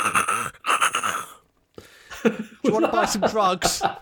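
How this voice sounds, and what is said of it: Put-on South London accent. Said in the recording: “my impression of South London ... It's very good. It's like being home.”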